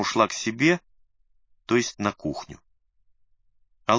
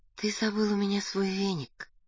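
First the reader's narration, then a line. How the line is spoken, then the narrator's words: Tender. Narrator (Russian): нежно сообщила Надя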